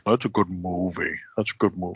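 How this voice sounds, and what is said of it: Imitates another person's voice. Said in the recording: “my Ben impression”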